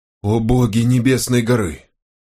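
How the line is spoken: Breathless exclamation. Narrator (Russian): выдохнул книгачей

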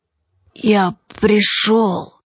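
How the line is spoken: Strangled hoarse wheeze. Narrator (Russian): просипела она сдавленно и все же очень похожа на голос повесившегося

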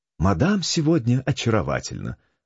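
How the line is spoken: Honeyed voice. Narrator (Russian): сказала Жанна медовым голоском

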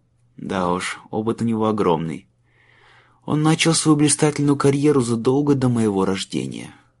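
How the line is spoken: Sighing. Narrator (Russian): вздохнул Майлз

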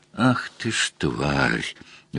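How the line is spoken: Pained breathless curse. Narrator (Russian): выдохнул он, сплюнув кровь из рассеченной губы

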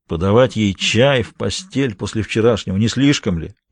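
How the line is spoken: Grumbling. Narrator (Russian): проворчал Джулиус

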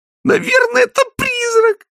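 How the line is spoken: Exclamation. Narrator (Russian): воскликнула Кристина

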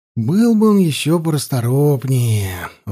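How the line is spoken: Sighing. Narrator (Russian): вздохнул я

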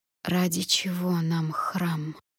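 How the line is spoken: Dead-voiced interruption. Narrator (Russian): мертвым голосом перебила я

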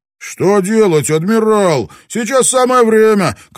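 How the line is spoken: Shout. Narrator (Russian): крикнул главный канонир

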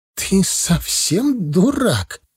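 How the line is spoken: Exclamation. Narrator (Russian): воскликнула первая

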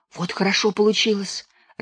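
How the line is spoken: Joyful whisper. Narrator (Russian): радостным шепотом приговаривала Нюра

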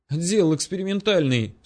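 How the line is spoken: Sobbing. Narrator (Russian): всхлипнул коммунар

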